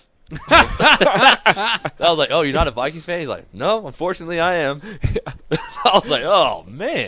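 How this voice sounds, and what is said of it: Heavy Texan accent. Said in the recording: “you got a pretty heavy accent. I'm like, yeah, I'm from Texas.”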